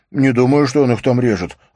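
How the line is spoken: Snapping. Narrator (Russian): огрызнулся Берра Хансен

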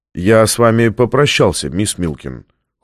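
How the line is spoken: Cold. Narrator (Russian): холодно сказал Фонтейн

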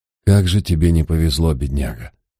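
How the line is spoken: Silent inner sigh. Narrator (Russian): вздохнул я про себя

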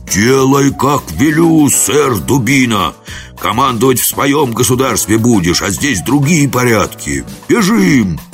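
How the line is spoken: Menacing hoarse shout. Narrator (Russian): Будимир грозно хрипло закричал

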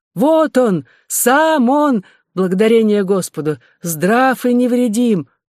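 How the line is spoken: Crowd shouting joyfully. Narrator (Russian): кричали вассалы

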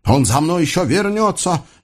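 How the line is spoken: Unsure, deliberately loud. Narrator (Russian): не очень уверенно, а потому нарочито громко ответил Юсуф

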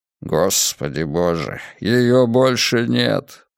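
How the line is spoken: Muttered. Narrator (Russian): пробормотал Левицкий

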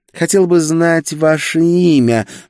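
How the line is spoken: Purring. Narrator (Russian): промурлыкала она

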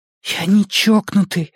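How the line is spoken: Breathless exhale. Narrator (Russian): выдохнул Эдди

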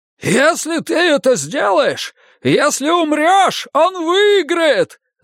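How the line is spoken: Yelling. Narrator (Russian): заорал Финли

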